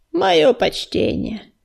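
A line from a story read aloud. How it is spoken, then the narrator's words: Lazy greeting. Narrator (Russian): лениво поздоровался он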